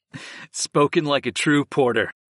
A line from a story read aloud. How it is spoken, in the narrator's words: I chuckled